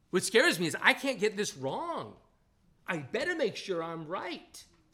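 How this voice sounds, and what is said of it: Strong regional dialect. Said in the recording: “the saints are going to have a hard time understanding my dialect. It's going to come out. You'll hear it.”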